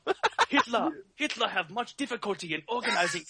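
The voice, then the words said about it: Put-on Hitler voice, broken English. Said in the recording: “your Hitler accent sounds a little bit like like a Native American who knows like sixty percent English... and lived briefly in Japan”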